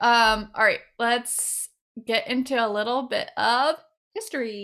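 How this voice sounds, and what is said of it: Usual voice. Nothing is said of it.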